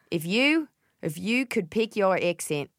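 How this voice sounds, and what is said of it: Strained, squeezed-throat Australian accent attempt. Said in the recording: “Oh, that's good. This is good. ... It just sounds like I'm squeezing your throat.”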